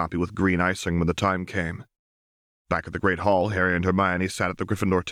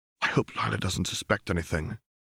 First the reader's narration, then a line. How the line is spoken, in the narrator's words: Harry whispered to Hermione